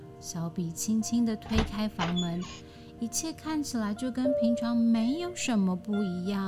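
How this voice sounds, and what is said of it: Usual voice. Nothing is said of it.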